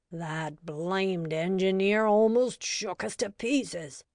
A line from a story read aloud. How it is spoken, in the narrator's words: groaned the conductor